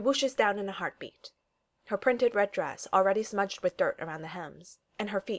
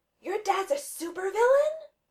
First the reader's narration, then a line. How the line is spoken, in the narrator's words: another girl shouts, wide-eyed, from the top of the slide